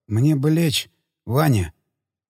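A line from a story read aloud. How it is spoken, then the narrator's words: Quiet. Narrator (Russian): Дельфин тихо сказал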